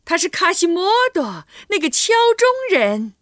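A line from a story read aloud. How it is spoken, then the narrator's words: Crowd shouting in unison. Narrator (Chinese): 人们异口同声的喊道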